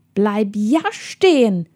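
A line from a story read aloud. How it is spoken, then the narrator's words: Man hissing. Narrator (German): zischte der Mann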